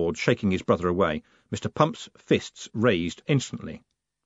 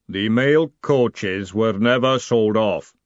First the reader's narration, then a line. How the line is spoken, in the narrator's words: the golem rumbled